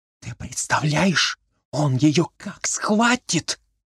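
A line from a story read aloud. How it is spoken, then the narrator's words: Heated whisper. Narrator (Russian): жаркий шепот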